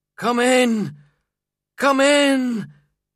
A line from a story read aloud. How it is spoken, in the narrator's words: he cried, tears rolling down his face